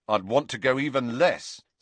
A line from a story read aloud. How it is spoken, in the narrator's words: said Ron firmly